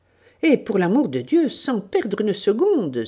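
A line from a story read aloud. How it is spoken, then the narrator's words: Cried out. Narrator (French): s'écria Dorothée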